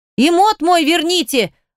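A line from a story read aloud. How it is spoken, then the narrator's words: Shouted. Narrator (Russian): выкрикнула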